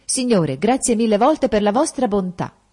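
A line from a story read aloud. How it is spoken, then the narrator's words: Exclaimed. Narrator (Italian): esclamò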